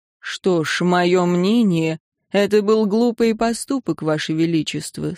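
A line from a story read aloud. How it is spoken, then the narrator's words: Even, calm voice. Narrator (Russian): сказал Силван ровным и спокойным голосом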